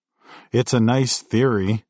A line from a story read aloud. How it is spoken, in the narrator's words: I snapped